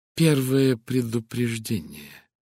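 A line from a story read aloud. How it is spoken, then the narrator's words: Soft explanation. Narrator (Russian): пояснил он уже мягко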